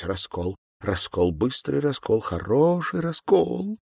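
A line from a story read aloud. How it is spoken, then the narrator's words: Crying mumble. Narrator (Russian): бормотала плача кассирша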